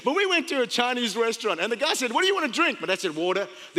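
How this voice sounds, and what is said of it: Speaks with a foreign accent. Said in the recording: “I have an accent. Somebody, I like the way you say water.”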